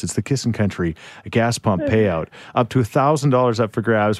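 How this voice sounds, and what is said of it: Mysterious announcer voice. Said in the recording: “I love talking in this mysterious voice.”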